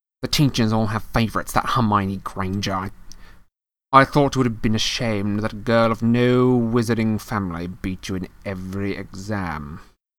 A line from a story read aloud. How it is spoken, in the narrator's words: snapped Mr